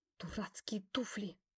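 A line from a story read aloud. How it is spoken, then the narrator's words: Hiss. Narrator (Russian): услышал шипение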